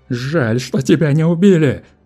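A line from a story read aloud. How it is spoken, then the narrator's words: Frantic yelling. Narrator (Russian): орал потерявший голову Нунеппи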